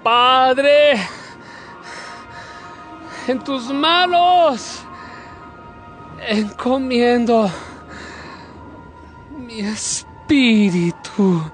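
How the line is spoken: Loud cry. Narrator (Spanish): Jesús lanzó un grito y dijo

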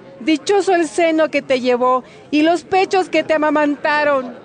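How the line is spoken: Woman speaking loudly. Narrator (Spanish): una mujer de entre la multitud dijo en voz alta

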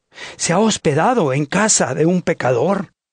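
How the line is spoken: Crowd muttering. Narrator (Spanish): todos murmuraban y decían

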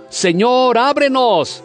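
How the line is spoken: Shouting. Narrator (Spanish): gritando

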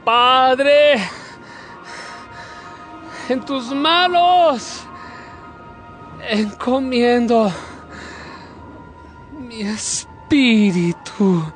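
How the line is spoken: Loud cry. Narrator (Spanish): Jesús lanzó un grito y dijo

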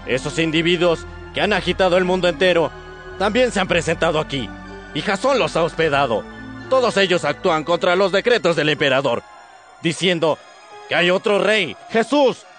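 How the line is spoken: Crowd shouting. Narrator (Spanish): gritando

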